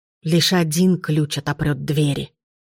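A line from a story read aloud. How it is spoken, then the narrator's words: Muttering. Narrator (Russian): пробормотала Валери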